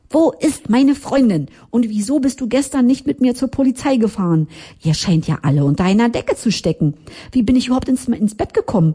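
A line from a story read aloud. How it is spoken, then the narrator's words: Shouting at someone. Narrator (German): schrie ich ihn sofort an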